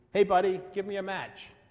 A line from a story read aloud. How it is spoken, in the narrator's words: called out